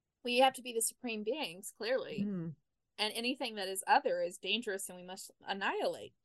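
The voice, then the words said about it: Sarcastic delivery. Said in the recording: “hear it in my voice, I am being sarcastic”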